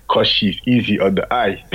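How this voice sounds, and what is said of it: Thick Russian accent. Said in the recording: “With a thick Russian accent as well ... It sounds like Arnold Schwarzenegger, man.”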